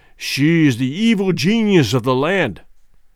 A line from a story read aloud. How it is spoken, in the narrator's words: he answered